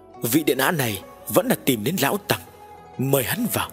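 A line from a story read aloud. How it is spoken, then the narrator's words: Slightly trembling laugh. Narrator (Vietnamese): Lão Như Lai hơi run run cười nói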